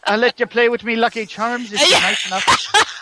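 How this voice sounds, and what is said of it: Bad put-on Irish accent. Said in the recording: “Find an Irish-speaking guest. I am. Because I love their accents, too. ... Nope, you're horrible.”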